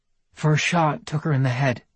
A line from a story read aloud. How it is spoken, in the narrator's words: Anna told him, her voice sounding abnormally calm to her own ears